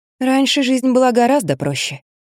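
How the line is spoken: Sighing, to herself. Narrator (Russian): сказала сама себе, вздохнула

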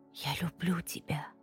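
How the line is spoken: Husband's whisper. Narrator (Russian): прошептал муж

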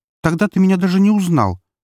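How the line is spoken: Offended pouting girl. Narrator (Russian): обиженно надулась девушка

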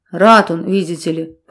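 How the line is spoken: Fatherly grumble. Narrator (Russian): по-отечески проворчал Тимофей

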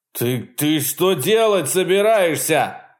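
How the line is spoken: Shouting. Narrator (Russian): закричал Чарли

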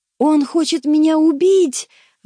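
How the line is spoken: Shrieking wounded man. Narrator (Russian): взвизгнул раненый

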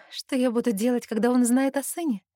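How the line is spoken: Sad wry chuckle. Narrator (Russian): Грустно усмехаюсь

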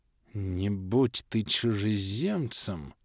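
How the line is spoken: Quiet. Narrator (Russian): Седри тихо произнес

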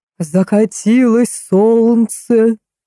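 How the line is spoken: Thunderous bass yell. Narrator (Russian): громовым басом заорал Густав

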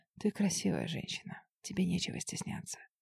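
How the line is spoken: Whisper. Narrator (Russian): прошептал

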